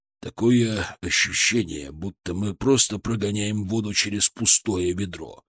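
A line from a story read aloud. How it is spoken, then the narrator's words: Gloomy. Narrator (Russian): мрачно добавил Шаповалов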